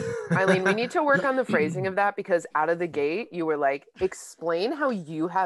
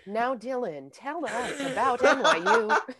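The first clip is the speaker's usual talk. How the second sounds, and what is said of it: Robotic voice. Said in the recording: “robot voice”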